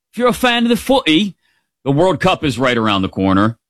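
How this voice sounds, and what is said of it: Poor put-on British accent. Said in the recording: “That's a terrible British accent”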